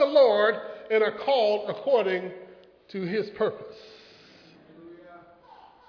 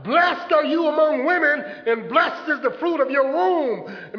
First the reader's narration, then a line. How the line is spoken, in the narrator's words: Filled with the Holy Ghost, Elizabeth called out